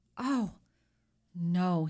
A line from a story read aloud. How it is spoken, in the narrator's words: he cried